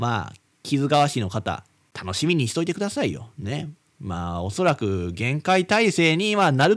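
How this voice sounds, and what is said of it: Usual voice. Nothing is said of it.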